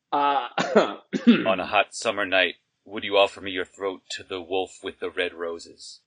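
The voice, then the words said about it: Creepy character voice. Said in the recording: “I'll be the creepy voice and you be the girl.”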